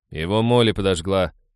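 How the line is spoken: Nervous grumble. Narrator (Russian): проворчал Хэл, сглотнув слюну

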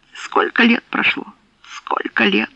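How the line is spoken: Distracted muttering. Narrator (Russian): бормотал он, изо всех сил стараясь переключить мысли с Нэнси и обнаженных женщин на что-нибудь другое

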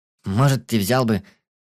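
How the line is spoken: Uncertain voice from crowd. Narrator (Russian): неуверенно ответили ему из толпы

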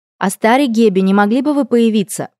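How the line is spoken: Loud request. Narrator (Russian): попросила я громко

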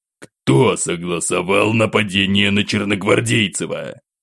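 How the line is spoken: Sharp displeased deep voice. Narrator (Russian): Резко прервал говорившего монарх и недовольным тоном пробасил

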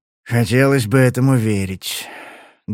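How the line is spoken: Sad. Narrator (Russian): грустно промолвил он

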